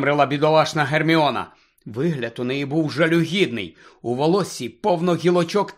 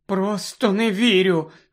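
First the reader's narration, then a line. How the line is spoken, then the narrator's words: Trembling voice. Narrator (Ukrainian): тремтячим голосом сказала Герміона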